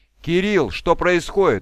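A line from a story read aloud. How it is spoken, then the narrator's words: Shouted in horror. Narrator (Russian): в ужасе крикнула Киллер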